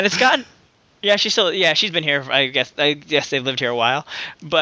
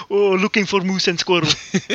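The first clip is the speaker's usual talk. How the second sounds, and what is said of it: Put-on Russian accent, Boris impression. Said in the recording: “she has a Russian accent, so I always do some Boris and Natasha joke”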